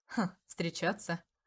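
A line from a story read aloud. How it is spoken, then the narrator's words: Laughing. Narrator (Russian): засмеялся Дариуш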